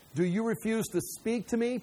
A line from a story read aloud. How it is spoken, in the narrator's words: Pilate says